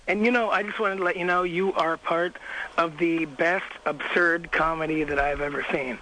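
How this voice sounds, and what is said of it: Hoarse, raspy voice. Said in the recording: “That's why his voice is like that... you been screaming, like, for the last 15 hours straight?”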